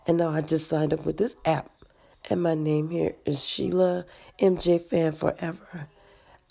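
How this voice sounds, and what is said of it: Congested voice. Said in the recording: “apologize for my voice because I have a cold.”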